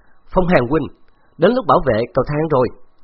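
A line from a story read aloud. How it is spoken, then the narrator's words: Laughing loudly. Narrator (Vietnamese): Khấu Trọng cười to nói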